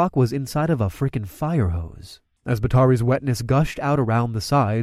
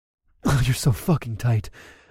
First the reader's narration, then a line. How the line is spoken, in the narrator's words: I moaned